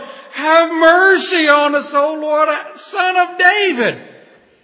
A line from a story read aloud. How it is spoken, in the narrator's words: They cried out all the more